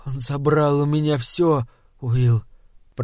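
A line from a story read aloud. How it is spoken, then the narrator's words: Whispered. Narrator (Russian): прошептал он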